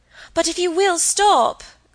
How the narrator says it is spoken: cried Margaret

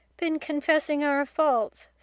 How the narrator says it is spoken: said Casuary gloomily

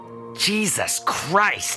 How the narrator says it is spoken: he groaned, for the rank smell of the week's worth of rotting pets had grown worse

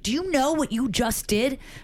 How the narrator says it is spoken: A doorman screamed

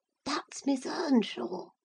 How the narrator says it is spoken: he whispered to his mother

